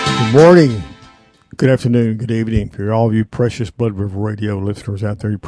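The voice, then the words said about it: Hoarse voice. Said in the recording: “Excuse this hoarseness, folks. I just did a little run today, a little bit more than I usually do. I'm still recovering from it just a little bit.”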